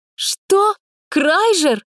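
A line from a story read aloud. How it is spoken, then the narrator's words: Frightened girl blurting. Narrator (Russian): испуганно выдала девушка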